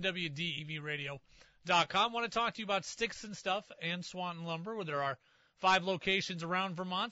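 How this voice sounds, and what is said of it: Strained, recovering voice. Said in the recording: “my voice is making a mild comeback here on the back half of the hour ... It's just the voice. It must have been all the yelling”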